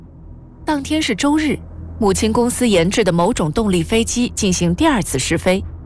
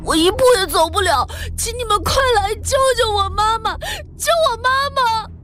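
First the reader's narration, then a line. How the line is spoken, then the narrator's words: Crying into phone. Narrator (Chinese): 秦山哭着对电话说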